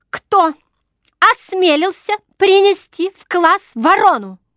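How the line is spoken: Sharp shrill female voice. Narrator (Russian): Резко прозвучал среди восстановившейся мигом тишины ее визгливый голос

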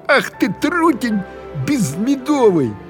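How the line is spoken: Angry shout. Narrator (Russian): она закричала на своего неповоротливого Егора

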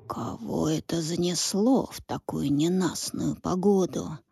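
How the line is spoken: Old man's grumble. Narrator (Russian): проворчал старый король

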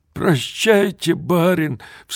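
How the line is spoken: Sobbing. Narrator (Russian): всхлипывая, говорил он

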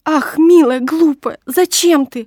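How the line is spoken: Babbling. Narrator (Russian): лепетала Нина

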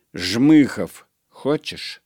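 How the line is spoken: Plain. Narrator (Russian): спросила она

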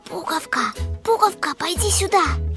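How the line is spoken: Whisper. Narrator (Russian): сказала шепотом

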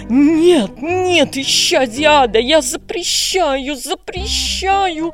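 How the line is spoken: Hissed. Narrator (Russian): зашипела сестра Агата

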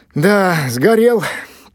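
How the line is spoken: Mournful sigh. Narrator (Russian): вздохнула словно по живому существу тетя Оля

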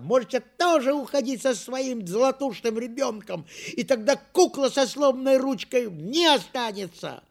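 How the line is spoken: Little girl shouting. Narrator (Russian): моя сестренка Лёля закричала

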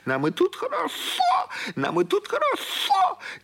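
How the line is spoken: Shouting up to sky. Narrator (Russian): она закричала в небо

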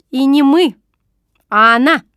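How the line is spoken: Angry correction. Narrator (Russian): сердито поправила она меня

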